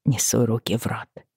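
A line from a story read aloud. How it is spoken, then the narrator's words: Mumbled. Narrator (Russian): пробормотала я Бри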